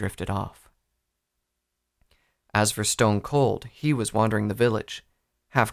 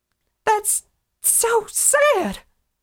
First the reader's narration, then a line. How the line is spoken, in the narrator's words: Applebloom cried